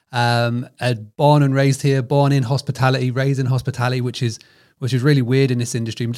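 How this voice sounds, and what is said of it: British accent. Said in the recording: “As you can tell from this accent, I'm over the pond in the United Kingdom.”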